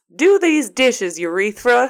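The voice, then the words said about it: Put-on Southern accent. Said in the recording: “What is with this accent? ... you are impersonating me calling my child ... Every accent I have, I feel, is like that. Southern. Tone. Yeah, Southern.”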